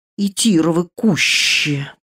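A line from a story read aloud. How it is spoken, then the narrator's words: Stunned hissing. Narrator (Russian): прошипел обалдевший светлячок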